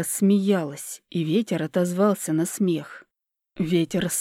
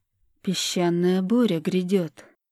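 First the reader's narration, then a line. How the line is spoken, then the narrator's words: Perfectly calm, mildly inconvenienced. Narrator (Russian): сказала Ольга совершенно спокойным голосом, как будто бы данное обстоятельство было не бедой, а неким досадным неудобством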